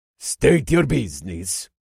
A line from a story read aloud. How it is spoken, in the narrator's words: the guard said in a gruff voice